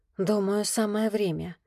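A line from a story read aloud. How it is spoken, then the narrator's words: Silent mouthed whisper. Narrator (Russian): одними губами прошептала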